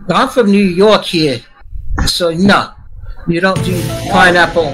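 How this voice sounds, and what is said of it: Put-on New York accent. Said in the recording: “I've never heard him do his New York accent. That's pretty great.”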